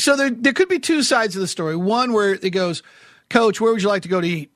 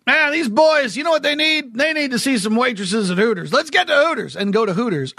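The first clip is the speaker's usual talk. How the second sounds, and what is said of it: Exaggerated put-on accent. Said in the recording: “I don't know why I just gave him like some sort of big accent.”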